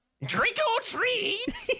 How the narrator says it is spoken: He screeches

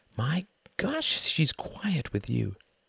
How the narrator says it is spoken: whispered Wendy

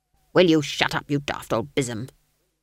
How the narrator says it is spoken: snapped Granny

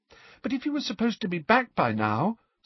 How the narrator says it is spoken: said Hermione, in a small, anxious voice

